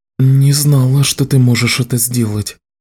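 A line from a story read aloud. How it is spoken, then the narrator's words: Soft. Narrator (Russian): мягко сказала Кэлен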